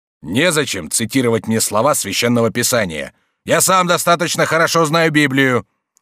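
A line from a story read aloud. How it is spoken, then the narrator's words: Indignant shout. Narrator (Russian): крикнул с возмущением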